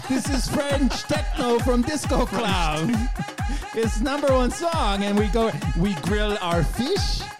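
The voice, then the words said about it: Unconvincing put-on French Canadian accent. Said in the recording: “I'm not sure that's the real accent.”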